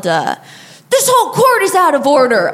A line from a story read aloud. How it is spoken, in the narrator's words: he yelled